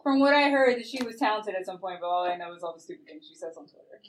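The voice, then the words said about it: New Jersey accent. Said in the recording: “your Jersey accent. The way you say that.”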